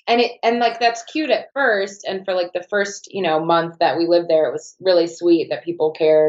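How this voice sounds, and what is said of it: Foreign accent, often taken for English. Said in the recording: “I love your accent. ... everyone always thinks England, like everyone's always like, are you from England?”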